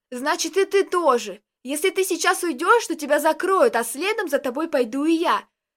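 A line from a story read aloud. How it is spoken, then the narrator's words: Shout. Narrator (Russian): закричал Костик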